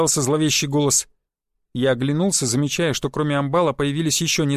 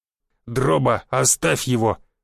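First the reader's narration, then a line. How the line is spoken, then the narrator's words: Growling commander. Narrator (Russian): зарычал командир чистильщиков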